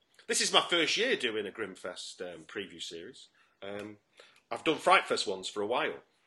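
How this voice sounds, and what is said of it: Manchester English accent. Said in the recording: “you can recognise my accent, but I'm actually from Manchester”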